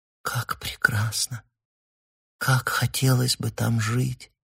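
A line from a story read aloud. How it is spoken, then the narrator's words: Whisper. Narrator (Russian): прошептала она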